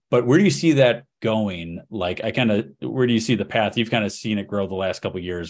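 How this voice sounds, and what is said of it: Speaks English with an accent. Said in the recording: “It's my accent. I don't speak well.”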